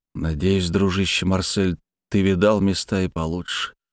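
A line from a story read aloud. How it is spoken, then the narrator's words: Quiet. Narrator (Russian): тихо сказал я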